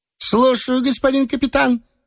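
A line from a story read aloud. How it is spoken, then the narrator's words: Cheerful bark. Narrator (Russian): весело гаркнул Лбов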